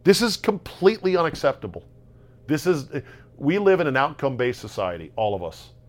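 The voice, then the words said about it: Yelling, loud agitated rant. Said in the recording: “I'm not yelling, am I? I'm yelling, right?”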